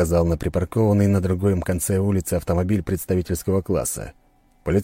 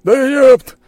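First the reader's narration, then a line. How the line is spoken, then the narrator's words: Yelled. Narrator (Russian): заорал он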